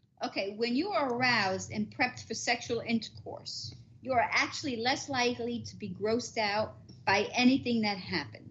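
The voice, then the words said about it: Strong New Jersey accent. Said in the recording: “that New Jersey accent is really fucking coming out right now”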